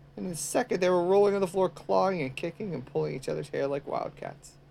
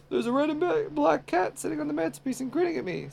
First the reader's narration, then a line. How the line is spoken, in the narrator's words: said Ed in a scared voice